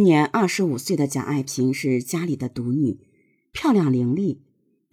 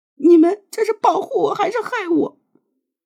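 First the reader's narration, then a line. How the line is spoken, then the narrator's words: Crying harder. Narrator (Chinese): 哭得更厉害了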